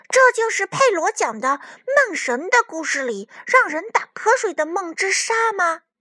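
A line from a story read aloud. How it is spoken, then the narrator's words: Amazed question. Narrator (Chinese): 卡门惊叹地问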